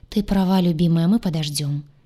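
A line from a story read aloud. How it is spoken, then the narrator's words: Sighing. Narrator (Russian): сказал, вздохнув Сай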